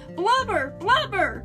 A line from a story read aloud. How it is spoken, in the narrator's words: She called out to me